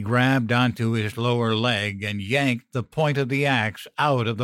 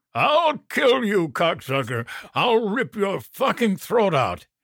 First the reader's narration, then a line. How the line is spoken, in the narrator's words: Behind me, Moses shrieked